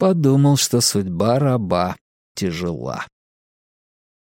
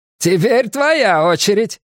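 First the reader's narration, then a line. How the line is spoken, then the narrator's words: Shouting. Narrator (Russian): крикнула она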